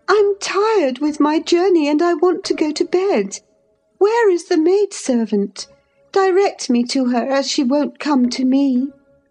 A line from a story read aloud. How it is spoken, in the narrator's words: I exclaimed